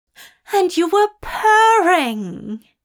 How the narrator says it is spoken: Aziraphale exclaimed brightly, smiling at the memory

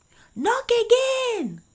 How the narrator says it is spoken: cried they

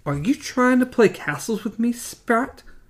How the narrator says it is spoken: Jonas murmured

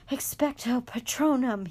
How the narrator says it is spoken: he gasped

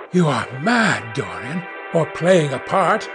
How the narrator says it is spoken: muttered Hallward, frowning

